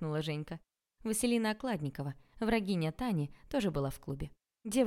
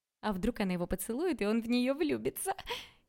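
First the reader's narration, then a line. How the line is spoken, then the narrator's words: Girl giggling. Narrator (Russian): Хихикнул кто-то из девчонок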